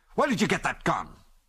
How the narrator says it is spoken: he asked angrily

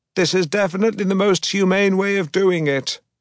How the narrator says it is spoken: I screamed at the foreman over the deafening roar of the machinery

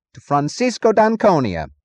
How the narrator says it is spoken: he said

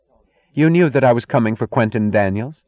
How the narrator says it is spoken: asked coldly, in the tone of an enemy's accusation

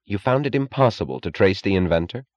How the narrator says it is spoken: he asked

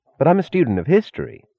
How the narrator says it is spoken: said Larkin hastily

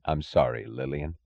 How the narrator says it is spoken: he said, his voice low, a voice of sincerity and of suffering

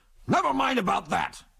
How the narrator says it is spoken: shouted McBain, as if he sensed that the oncoming aeroplane was a danger to the success of his plans

